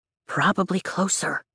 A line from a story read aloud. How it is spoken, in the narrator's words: Riddick whispers back